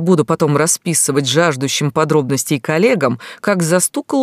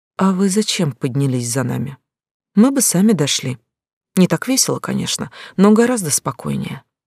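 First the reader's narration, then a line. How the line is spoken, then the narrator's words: Quiet, through teeth. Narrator (Russian): тихо процедила Глаша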